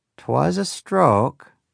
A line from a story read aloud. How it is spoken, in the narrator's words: she said in that long and drawling Yankee accent of hers